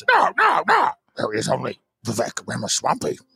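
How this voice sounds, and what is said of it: Yoda character voice. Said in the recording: “in the voice of Yoda... I do a pretty accurate Yoda impersonation... It is spot on.”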